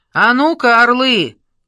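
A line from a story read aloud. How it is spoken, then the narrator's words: Shouted. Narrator (Russian): крикнул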